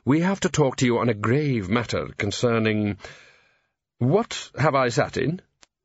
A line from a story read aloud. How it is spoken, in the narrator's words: Downey firmly